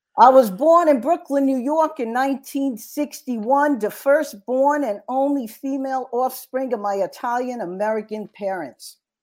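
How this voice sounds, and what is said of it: Put-on Brooklyn accent. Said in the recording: “I'll give you a little Brooklyn accent, but I'm rusty”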